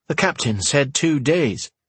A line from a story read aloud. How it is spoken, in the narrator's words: said